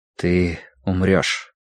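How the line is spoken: Quiet. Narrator (Russian): тихо произнес Тай

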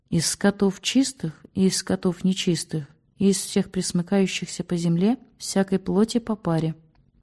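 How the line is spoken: Low voice. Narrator (Russian): Митрофанев вполголоса произнес

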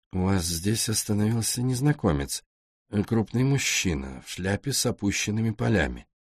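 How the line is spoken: Quiet question. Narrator (Russian): Роули тихо спросил у нее

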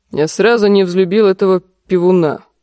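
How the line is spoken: Grumbling. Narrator (Russian): проворчал лорд Нестор

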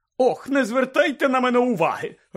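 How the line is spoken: Irritated shout. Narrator (Ukrainian): роздратовано крикнула їм вслід гладка пані

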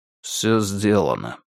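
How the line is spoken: Weary report. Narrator (Russian): устало отрапортовал Мансур

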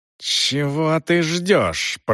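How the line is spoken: Hissed. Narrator (Russian): прошипела Рэйчел

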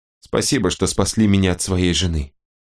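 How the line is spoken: Very soft, female. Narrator (Russian): очень мягко сказала она

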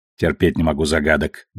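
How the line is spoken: Grumbling. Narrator (Russian): буркнул Сакай

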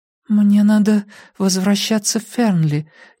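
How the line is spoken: Uncertain. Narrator (Russian): неуверенно проговорила Урсула

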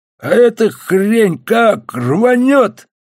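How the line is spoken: Hoarse wheeze. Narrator (Russian): просипел хрипатый

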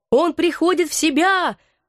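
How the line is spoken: Sudden shout from crowd. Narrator (Russian): вдруг закричал кто-то из толпы

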